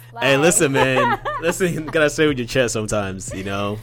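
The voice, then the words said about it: Deep bassy late-night radio DJ voice. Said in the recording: “Come through with all that bass. ... That's my 12 midnight radio DJ voice.”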